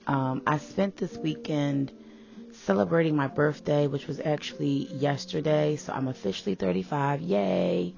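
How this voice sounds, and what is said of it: Raspy voice. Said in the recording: “My voice may sound a little raspy”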